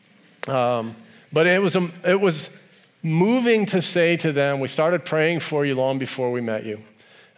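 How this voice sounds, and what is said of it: Emotional, voice choked up. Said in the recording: “I'm getting emotional thinking about it”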